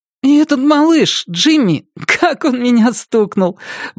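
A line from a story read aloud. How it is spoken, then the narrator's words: Giggling. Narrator (Russian): Брэд хихикнул, вспомнив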